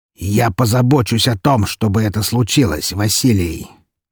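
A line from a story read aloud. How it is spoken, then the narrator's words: Menacing. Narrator (Russian): грозно произнес он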